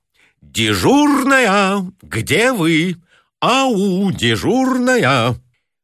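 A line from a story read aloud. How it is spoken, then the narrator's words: Loud calling. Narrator (Russian): громко взывая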